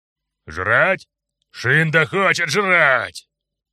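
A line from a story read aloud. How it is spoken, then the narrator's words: Sharp deep bass. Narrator (Russian): Пробасила резко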